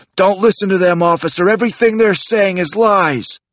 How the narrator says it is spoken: shouted

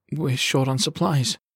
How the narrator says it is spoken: he said quietly

